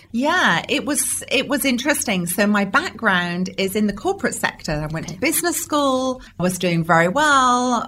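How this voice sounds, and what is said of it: British English accent. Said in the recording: “because you're from the UK. ... Love the accent.”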